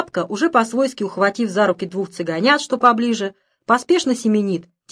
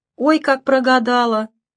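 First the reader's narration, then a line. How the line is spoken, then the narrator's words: Tired, cheerful driver. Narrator (Russian): устало говорит весельчак-шофер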